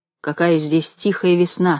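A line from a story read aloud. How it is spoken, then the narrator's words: Plain. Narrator (Russian): сказал Юзик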